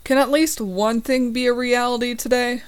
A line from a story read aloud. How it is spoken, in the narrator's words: I sigh